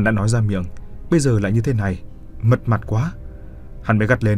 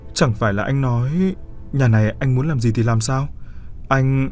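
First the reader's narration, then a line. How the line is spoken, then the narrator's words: Feigned fear, trembling. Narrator (Vietnamese): giả vờ ngây thơ sợ hãi rồi run rẩy hỏi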